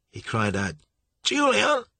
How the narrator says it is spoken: He cried as loud as he could

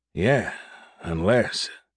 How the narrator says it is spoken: Derek muttered

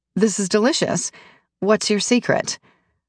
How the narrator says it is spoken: Camila gives another of her throaty laughs

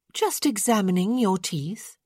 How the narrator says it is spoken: Eloise said sweetly

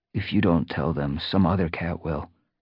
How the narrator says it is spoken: the young warrior murmured

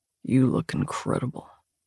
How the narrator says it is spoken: he says, his voice low

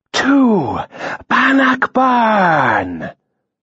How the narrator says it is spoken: they cried

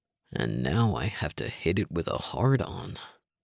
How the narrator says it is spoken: Link muttered

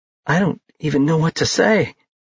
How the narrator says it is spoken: she said, her voice cracking

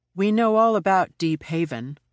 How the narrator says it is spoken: I said, evenly

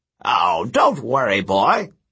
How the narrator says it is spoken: the ghost chuckled

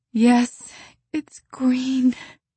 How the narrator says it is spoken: moaned Anne

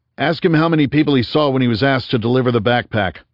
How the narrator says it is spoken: Rhys shouted at Abelard

